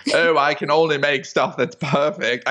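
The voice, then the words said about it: Poor put-on British accent. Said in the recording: “that was a good Brit accent. ... No, it was terrible.”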